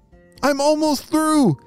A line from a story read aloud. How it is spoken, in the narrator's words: shouted Ralph back to his family